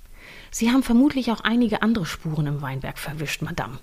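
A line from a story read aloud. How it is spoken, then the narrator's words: Slightly ironic. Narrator (German): sagte der Kommissar mit einem Hauch von Ironie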